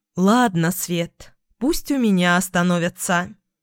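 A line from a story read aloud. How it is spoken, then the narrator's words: Self-reproachful sigh. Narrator (Russian): вздохнула, коря себя за свою доброту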